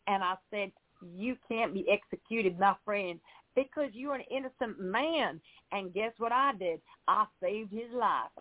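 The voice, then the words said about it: Put-on Oklahoma American accent. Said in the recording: “I'm really going to try to talk like I'm from Oklahoma ... I don't know if I can do an American accent because I'm an English girl ... That was perfect”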